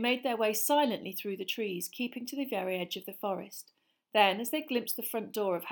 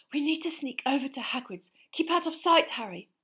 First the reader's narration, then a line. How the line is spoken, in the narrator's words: she gasped